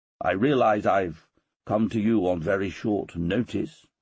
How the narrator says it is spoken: I said

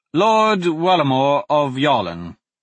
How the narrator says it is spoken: Dante lied smoothly

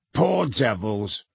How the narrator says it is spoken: growled Moody

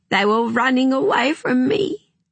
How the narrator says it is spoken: sobbed

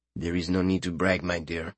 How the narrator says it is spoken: mumbling in her ear

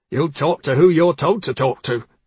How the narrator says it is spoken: the patrol officer snapped

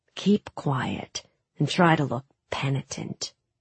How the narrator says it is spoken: he muttered to us

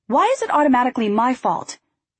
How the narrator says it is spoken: I snapped

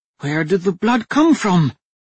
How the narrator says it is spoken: the woman had asked, her tone full of fear

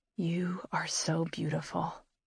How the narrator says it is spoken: he whispers

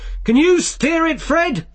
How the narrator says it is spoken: Vimes yelled as he ran along behind

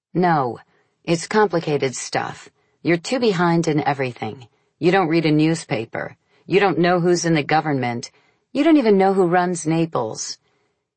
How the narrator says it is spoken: I answered harshly

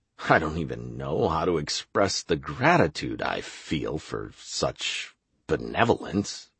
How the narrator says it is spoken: I muttered in reply

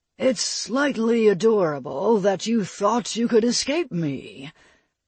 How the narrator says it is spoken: Vulcan purred in a voice that made it clear to Jewel that the beating she was hoping to avoid was still a possibility

